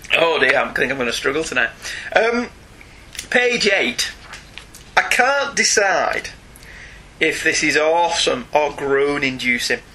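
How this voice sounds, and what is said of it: Sore, strained throat. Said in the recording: “I really got to stop doing that. My throat's really, really sore tonight.”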